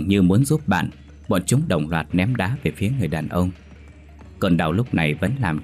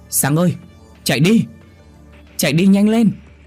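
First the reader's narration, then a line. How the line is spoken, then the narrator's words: Shouting from afar. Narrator (Vietnamese): Bà đứa nhóc kia đứng từ xa hét lên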